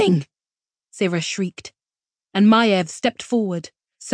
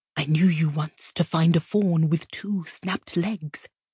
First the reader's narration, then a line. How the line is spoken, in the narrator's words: Maiev whispered